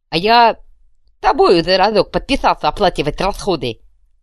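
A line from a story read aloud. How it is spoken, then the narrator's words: Snapping retort. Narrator (Russian): огрызнулся одноглазый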